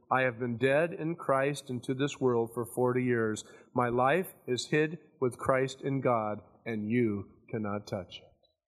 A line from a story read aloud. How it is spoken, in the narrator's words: the Christian quietly answered